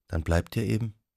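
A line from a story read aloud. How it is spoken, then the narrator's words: Quiet. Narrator (German): sagte sie leise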